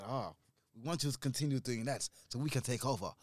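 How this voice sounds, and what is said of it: Poorly done put-on Chinese accent. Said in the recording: “that's a terrible Chinese accent as well, by the way, I apologize.”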